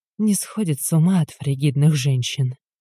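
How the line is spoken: Whisper. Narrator (Russian): говорю шепотом

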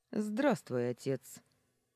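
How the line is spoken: Calm. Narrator (Russian): спокойно произнес

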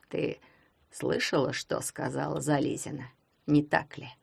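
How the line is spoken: Quiet question. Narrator (Russian): негромко спросил академик

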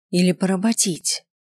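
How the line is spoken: Angry, through gritted teeth. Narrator (Russian): Процедил я сквозь зубы, вложив в голос всю злость, на которую только оставались силы

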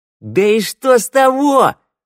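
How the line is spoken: Yell. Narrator (Russian): заорала нежительница

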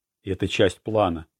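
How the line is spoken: Mutter. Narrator (Russian): пробормотал Лаурелла

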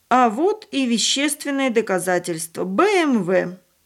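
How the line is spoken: Exclaimed. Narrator (Russian): один из полицейских воскликнул

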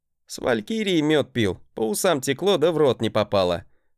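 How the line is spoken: Laughing chuckle. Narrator (Russian): хохотнул я

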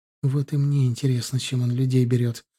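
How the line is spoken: Sad reply. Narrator (Russian): грустно ответила Оксана

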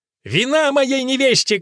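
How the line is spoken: Shout. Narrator (Russian): крикнул

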